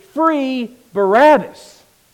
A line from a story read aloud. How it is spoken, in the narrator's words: they shouted